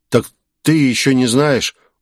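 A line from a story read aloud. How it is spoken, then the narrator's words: Glum drawl. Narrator (Russian): уныло протянул он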